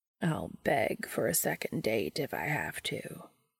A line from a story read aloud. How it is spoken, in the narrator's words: Castiel says, his voice lower than it was earlier